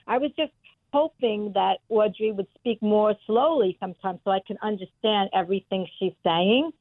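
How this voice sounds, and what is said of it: Brooklyn accent. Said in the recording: “I have a Brooklyn accent myself.”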